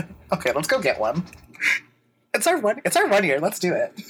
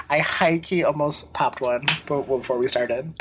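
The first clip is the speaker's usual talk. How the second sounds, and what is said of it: Whispering. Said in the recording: “I don't know why I'm whispering.”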